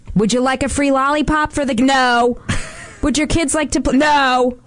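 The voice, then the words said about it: Imitates another person's voice. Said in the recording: “That's my impression of him”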